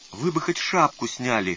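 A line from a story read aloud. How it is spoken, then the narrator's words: Timid advice. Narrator (Russian): робко посоветовал Лукашин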